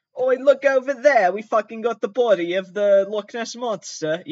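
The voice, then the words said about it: Put-on British accent. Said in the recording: “I have to do a British accent.”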